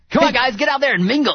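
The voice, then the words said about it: Perfect Quagmire cartoon character impression. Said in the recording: “You sound like you should be like hosting a singles party right now. ... You sounded like Quagmire when you do that again. ... you can do a perfect Quagmire impression”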